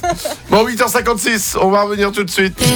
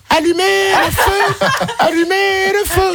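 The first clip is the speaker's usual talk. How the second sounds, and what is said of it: Imitates another person's singing voice. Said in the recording (French): “vous devez imiter qui c'est ... t'es très bon en imitation ... Non, c'est nul, Johnny.”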